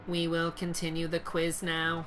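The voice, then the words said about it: Hollow teacher voice. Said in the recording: “the teacher says in a hollow voice”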